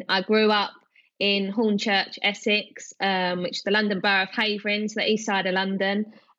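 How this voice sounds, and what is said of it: Strong East London accent. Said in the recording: “You can probably tell by my strong accent.”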